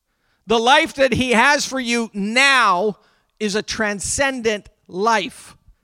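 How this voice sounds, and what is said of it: Yelling, emotional preaching. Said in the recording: “I feel like I'm yelling this morning. I hope you get my emotion.”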